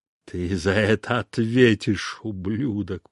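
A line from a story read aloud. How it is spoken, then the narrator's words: Angry growl. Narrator (Russian): прорычал он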